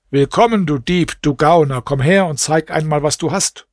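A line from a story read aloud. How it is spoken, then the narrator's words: Calling out. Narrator (German): Scheich Ibrahim rief ihm zu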